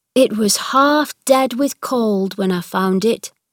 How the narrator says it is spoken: said Dickon

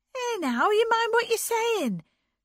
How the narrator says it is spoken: cried Anne

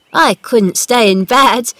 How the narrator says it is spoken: laughed

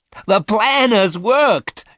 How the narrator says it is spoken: cried excitedly

